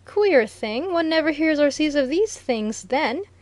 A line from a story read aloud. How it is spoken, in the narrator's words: exclaimed Viner